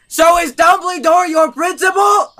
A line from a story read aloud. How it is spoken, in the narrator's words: I shouted